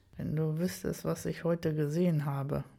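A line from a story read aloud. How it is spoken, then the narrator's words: Murmured. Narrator (German): murmelte ich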